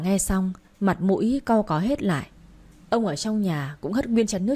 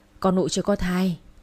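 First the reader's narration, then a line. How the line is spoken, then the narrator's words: Sighing reply. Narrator (Vietnamese): mợ thở dài đáp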